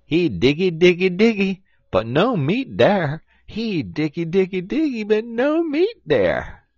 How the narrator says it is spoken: Brer Rabbit, he giggled to his chilluns

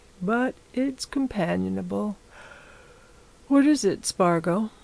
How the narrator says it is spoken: he said, yawning

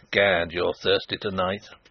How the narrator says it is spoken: chuckled Sapt

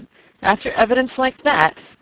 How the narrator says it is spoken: he exclaimed

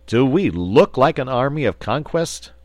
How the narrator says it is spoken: retorted the wizard, and he added impatiently

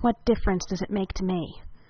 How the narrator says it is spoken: He growled

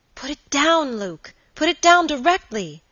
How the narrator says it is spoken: cried the girl with a look of terror

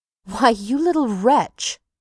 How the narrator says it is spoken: cried Amory indignantly

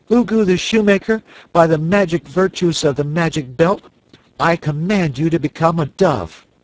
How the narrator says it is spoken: cried in a loud voice

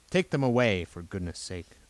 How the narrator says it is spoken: the inspector said crossly

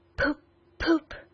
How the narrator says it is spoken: At intervals he was still heard to murmur

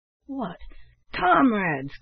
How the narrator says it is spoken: cried Black Jim with an oath

